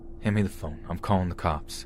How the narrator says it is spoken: said in a very serious tone

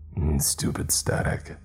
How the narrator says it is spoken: he muttered to himself

